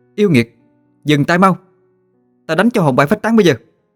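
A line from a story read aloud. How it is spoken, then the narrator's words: Shouting. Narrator (Vietnamese): la lên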